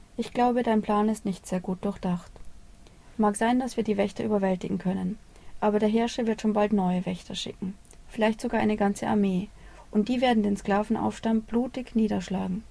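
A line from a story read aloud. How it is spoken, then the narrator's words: Listless sigh. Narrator (German): seufzte Kratje teilnahmslos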